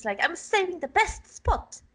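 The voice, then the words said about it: Failed fake British accent. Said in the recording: “I tried to do a British accent. It didn't come off. ... it has to be like a fake British accent”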